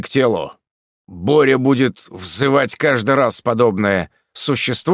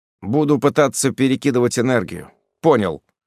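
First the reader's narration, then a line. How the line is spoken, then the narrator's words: Dry reply. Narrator (Russian): сухо ответил я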